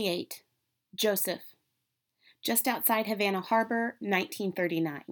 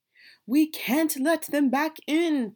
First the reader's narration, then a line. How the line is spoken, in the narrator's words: Papa cried